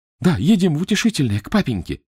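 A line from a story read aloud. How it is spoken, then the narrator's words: Exclaiming. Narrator (Russian): воскликнул Митя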